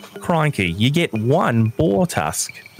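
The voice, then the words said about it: Put-on Australian accent. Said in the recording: “If you want me to do Australian ... It's uncanny ability to switch back and forth.”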